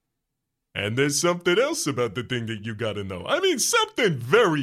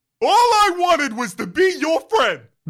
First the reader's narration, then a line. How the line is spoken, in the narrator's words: Nathan yells